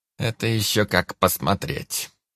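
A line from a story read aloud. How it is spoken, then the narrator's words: Cryptic grumble. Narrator (Russian): непонятно проворчал Анджей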